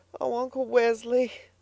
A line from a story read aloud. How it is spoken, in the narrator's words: sobbed the girl